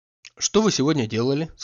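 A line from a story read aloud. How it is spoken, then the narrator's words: Plain. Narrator (Russian): спросила она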